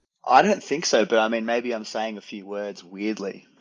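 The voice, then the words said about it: Rich Australian accent. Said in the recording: “It's Australian... his accent isn't as rich as yours”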